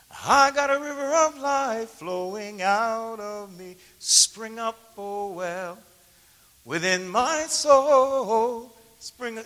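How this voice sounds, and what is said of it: Singing voice cracking. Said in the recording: “Can't you hear my voice cracking?”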